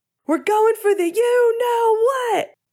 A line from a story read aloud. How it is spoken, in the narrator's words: Finn shouted